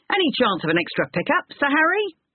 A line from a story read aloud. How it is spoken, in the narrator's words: one of them shouted